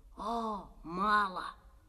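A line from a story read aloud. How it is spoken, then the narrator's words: Hiss. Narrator (Russian): прошипел Петя Коленкин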